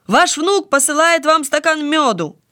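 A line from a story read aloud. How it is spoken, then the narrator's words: Repeated shouting. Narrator (Russian): Еще раз прокричал он то же самое, и еще раз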